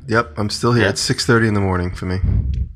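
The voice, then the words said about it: Deep, just-woke-up voice. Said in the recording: “my voice is a little deep because I just woke up”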